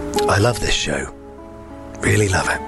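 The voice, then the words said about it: Radio presenter voice. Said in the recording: “I'll do my radio voice.”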